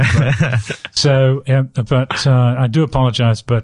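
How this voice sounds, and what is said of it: Usual voice. Nothing is said of it.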